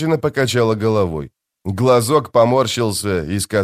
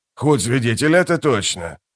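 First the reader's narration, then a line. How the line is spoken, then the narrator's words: Muttering. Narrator (Russian): пробормотал Бальт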